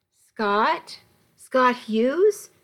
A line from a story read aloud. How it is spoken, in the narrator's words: she'd said